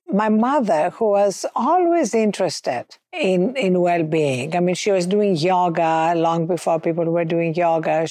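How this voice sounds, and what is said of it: Greek accent. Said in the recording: “as you can hear from my accent, you know, I wasn't born in this country. I was born in Athens, Greece.”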